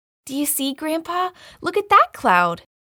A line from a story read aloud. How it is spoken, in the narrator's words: exclaimed Laura, jumping